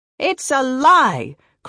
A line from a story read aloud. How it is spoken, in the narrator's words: cried the collector lady